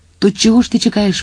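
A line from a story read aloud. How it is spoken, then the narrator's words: Exclamation. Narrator (Ukrainian): вигукнув Вільям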